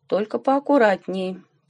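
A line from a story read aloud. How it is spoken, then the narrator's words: Grumbling. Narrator (Russian): проворчал Степан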